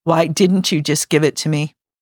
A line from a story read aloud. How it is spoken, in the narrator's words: Phil sighed